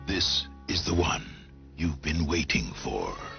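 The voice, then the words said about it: Creepy horror movie trailer voice. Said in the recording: “he does have a creepy horror movie trailer voice”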